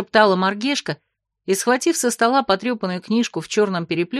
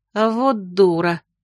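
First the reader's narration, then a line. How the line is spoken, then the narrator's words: Muttered through teeth. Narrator (Russian): процедила вслед Кася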